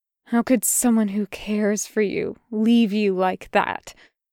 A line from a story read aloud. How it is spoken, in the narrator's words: Jester spat at him